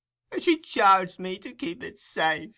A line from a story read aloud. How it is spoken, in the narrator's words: replied the old woman with a groan